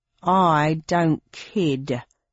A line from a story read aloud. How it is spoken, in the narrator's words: said Mr